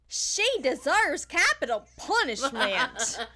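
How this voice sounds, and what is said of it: Southern US accent. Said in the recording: “Say it with your southern accent, though. ... Your ... accent is fucking. I'm living for it right now.”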